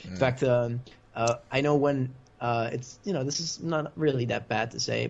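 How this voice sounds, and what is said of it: Mostly American English accent. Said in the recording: “You kind of sound American, I'll be honest. ... Maybe a little bit off, but for the most part, it does really give off an American accent.”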